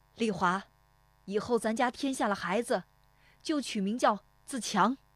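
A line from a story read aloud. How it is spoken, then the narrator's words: Shouted. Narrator (Chinese): 父亲对着堂屋喊了一声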